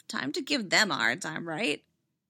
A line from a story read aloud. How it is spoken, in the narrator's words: Anakin laughed